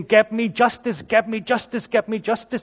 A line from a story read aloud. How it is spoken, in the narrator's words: this widow would be persistent in shouting at him and saying